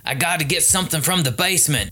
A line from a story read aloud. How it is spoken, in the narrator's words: Daddy bellowed